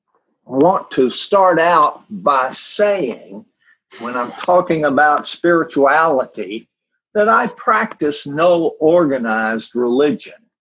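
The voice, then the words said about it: Strong Southern US drawl. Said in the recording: “my profound Southern drawl ... I'm a native of the South”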